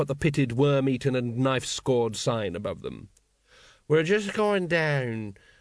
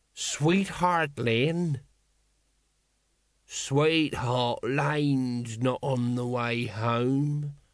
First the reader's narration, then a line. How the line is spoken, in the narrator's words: slurred Nobby